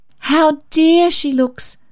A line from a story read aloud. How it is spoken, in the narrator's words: exclaimed Auntie June